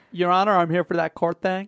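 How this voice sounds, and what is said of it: Poorly attempted American accent. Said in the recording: “Is that a Missourian accent? ... Was a terrible accent. ... was that attempted an American accent of sorts?”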